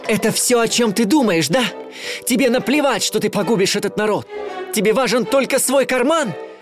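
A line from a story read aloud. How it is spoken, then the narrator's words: Angry shout. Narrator (Russian): зло крикнул Майло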